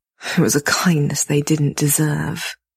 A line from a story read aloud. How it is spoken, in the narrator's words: he mutters darkly